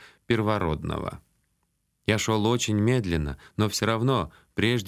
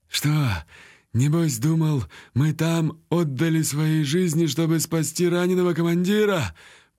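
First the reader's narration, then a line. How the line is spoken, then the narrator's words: Wheezing, hoarse voice. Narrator (Russian): поинтересовался у меня Биар, свистящий хрипящим голосом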